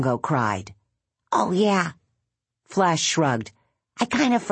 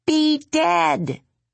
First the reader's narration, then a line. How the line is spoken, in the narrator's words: Bongo cried again